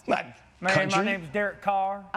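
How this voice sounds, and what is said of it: Bad put-on country accent. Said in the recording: “Can you do a country accent? ... give us some country swang? ... Oh, that's terrible.”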